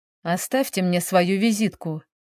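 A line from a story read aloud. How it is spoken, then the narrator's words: Muffled, hollow. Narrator (Russian): проговорил он глухо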